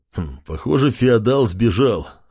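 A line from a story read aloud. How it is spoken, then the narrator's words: Smirking grunt. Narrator (Russian): хмыкнул Чев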